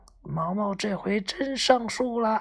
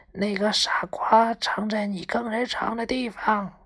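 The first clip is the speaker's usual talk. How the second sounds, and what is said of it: Speaking quietly, whispering. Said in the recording (Chinese): “小声告诉他”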